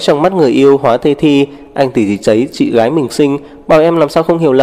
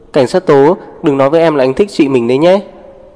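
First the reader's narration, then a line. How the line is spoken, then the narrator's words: Amused laughing, not angry. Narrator (Vietnamese): Diệp Lan không tức giận mà bật cười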